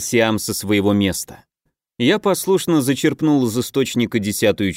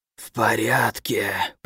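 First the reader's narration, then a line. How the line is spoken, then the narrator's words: Rasping innkeeper. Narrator (Russian): прохрипел трактирщик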